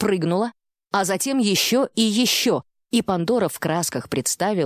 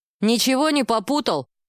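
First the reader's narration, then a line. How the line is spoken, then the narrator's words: Snapping, niece-like intonation. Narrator (Russian): Со свойственными племяннице интонациями огрызнулся Баранов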